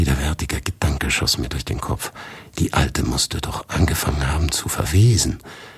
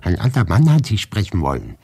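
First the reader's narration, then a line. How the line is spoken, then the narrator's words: Called out. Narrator (German): rief Maria Wassiljewna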